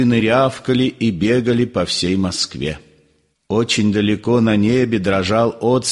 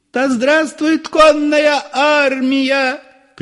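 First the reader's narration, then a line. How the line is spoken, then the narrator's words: Frenzied women shouting. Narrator (Russian): кричали иступленные женские голоса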